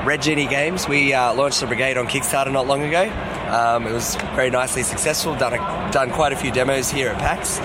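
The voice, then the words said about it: Husky, worn-out voice. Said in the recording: “my husky PAX voice ... It's a very sexy voice you've got there going on ... after 3 days of non-stop talking”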